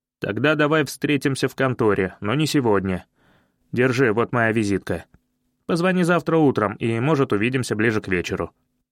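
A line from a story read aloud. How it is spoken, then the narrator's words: Skeptical offer. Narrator (Russian): Женя скептически хмыкнул, но предложил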